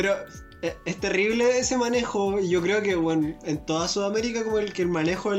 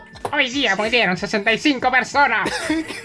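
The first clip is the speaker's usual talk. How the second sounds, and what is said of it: Clown voice. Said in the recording (Spanish): “hacer voz de payaso, weón. ¿Quién sabe hacer voz de payaso?”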